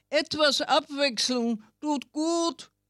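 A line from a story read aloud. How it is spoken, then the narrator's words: Chameleon calls out. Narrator (German): rief das Chamäleon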